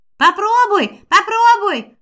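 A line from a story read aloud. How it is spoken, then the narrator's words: Yelling. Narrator (Russian): завопил Шварк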